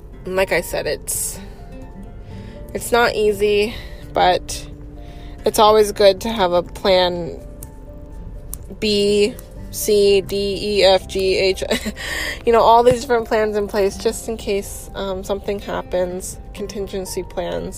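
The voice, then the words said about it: Tired-sounding voice. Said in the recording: “hear in my voice that there's just kind of just a bit of tiredness”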